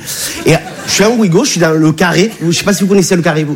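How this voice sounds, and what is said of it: Regional French accent, not Parisian. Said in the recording (French): “Tu as vu mon accent, je viens pas de Bagnolet.”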